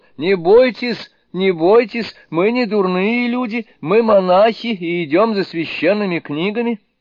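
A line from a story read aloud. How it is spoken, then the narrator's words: Alarmed shout. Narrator (Russian): Сюаньцзан не на шутку встревожился, закричал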